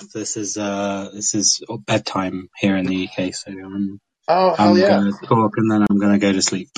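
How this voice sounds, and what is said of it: Rough, tired-sounding voice. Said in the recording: “I sound a little rough.”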